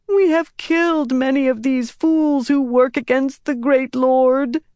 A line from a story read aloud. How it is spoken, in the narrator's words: Chesmal wailed